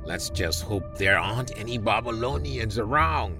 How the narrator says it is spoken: muttered one of the soldiers

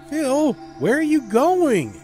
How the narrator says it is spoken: gritted my teeth opened my throat to yell

